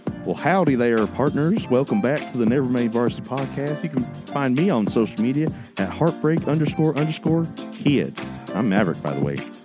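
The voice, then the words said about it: Exaggerated southern accent. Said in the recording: “This is my southern accent. ... You already have a southern accent. ... Well, I amplified it.”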